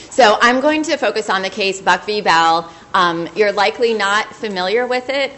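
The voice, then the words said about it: Hoarse voice. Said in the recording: “I'm a little hoarse”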